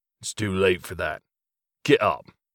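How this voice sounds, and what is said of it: Deep British accent. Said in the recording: “In a deep British accent, he said”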